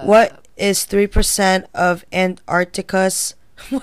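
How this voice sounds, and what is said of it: Flat, robotic delivery. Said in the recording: “You sound like a robot.”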